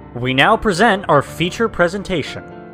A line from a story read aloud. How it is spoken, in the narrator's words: a man boomed, sounding a lot like the person that narrates over movies in the theater